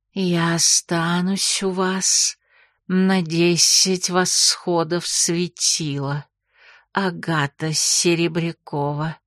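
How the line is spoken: Sudden quiet speech. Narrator (Russian): негромко заговорила вдруг Нагайна

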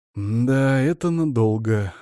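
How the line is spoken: Inner sigh. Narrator (Russian): мысленно вздохнул я

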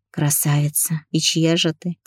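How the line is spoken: Quiet whisper. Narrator (Russian): Тихо прошептала

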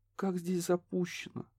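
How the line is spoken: Sad remark. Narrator (Russian): вновь грустно подметила Несса

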